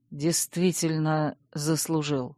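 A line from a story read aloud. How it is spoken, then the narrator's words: Quiet speech. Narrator (Russian): тихо проговорил герцог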